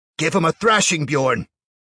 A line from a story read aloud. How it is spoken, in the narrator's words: one man yelled, his eyes alight with bloodlust and his beard flecked with spittle